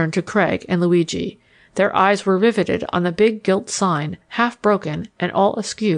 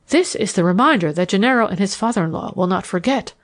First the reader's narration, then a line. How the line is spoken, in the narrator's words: I gasped